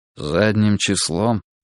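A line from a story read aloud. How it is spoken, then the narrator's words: Muffled question. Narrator (Russian): глухо спросил прапорщик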